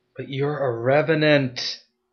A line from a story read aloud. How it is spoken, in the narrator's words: A tear slid down her cheek, her voice was rough